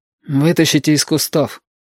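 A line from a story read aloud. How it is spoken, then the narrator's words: Quiet command. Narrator (Russian): тихо приказал Юртанка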